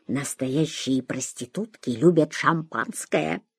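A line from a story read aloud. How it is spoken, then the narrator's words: Whisper. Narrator (Russian): Гия шепнул Шурику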